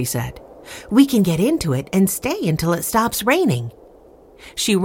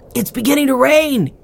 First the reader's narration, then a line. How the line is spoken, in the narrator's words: cried Henry